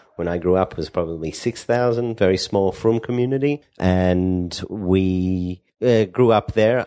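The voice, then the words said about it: Slight Australian accent. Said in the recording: “You obviously have a little bit of an accent going on.”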